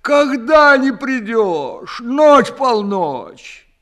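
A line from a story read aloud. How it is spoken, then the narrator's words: Sobbing. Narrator (Russian): совсем уж разрыдавшись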